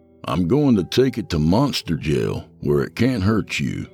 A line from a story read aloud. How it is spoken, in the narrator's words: I finally said